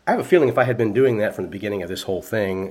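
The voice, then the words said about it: Slightly congested, nasal voice. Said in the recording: “I know you probably still hear it in my voice a little bit. There's still a little bit of a sinus thing.”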